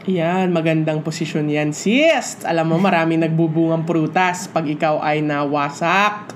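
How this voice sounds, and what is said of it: Sounds sick, voice affected by illness. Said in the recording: “I'm sorry if I sound sicky. I'm just coming out from a flu.”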